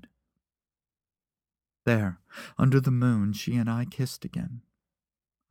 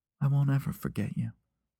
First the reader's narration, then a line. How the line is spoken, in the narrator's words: she said softly